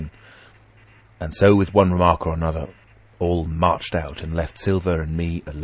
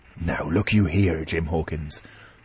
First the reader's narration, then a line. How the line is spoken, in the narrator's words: he said with a steady whisper that was no more than audible